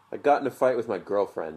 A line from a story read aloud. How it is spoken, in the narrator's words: said